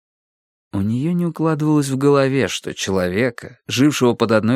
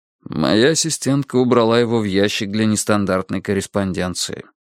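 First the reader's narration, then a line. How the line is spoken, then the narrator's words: Plain. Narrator (Russian): ответил Страйк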